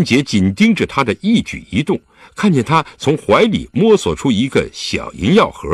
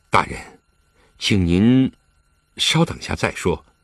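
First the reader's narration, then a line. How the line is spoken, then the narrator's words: Soft. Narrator (Chinese): 李元芳轻声道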